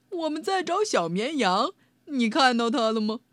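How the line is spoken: Laughing. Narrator (Chinese): 呵呵，道格拉斯笑着说

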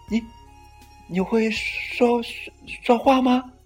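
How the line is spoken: Stammering question. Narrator (Chinese): 他结结巴巴的问

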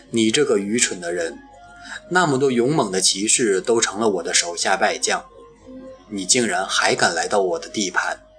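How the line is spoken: Contemptuous mocking, dragon. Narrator (Chinese): 恶龙 蔑视地嘲笑他

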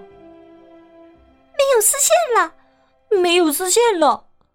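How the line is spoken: Squeaky chorus of mice. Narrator (Chinese): 屋里的小老鼠……一条声的用叽叽啾啾的小嗓音喊道

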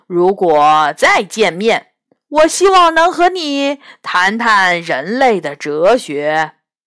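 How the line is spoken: Smiling. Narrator (Chinese): 彤彤笑着说

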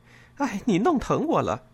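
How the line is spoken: Laughing. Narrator (Chinese): 她笑着说了句

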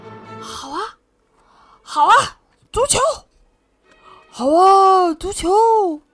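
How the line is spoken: Loud shouting. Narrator (Chinese): 海盗们大叫

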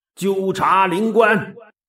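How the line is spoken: Loud shout. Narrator (Chinese): 他大声喝道

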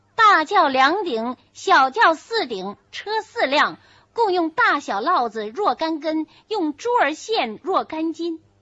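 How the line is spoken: Reading aloud. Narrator (Chinese): 彩明念道

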